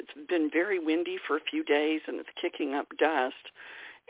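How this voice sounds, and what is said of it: Hoarse voice. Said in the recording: “I'm hoarse.”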